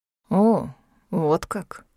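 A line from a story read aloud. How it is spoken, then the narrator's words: Drawn-out, thoughtful. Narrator (Russian): протянул он задумчиво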